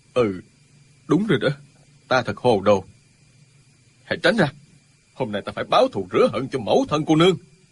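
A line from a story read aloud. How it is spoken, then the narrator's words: Stunned mutter. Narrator (Vietnamese): Ân Lê Đình sững sờ, lẩm bẩm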